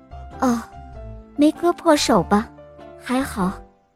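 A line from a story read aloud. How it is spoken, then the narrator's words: Mother, trembling voice. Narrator (Chinese): 妈妈颤声地说道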